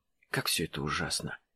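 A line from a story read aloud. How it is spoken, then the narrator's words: Soft. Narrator (Russian): тихо произнесла Иноземцева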